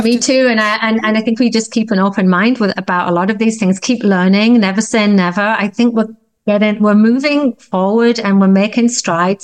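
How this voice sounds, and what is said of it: British accent. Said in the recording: “I love your accent.”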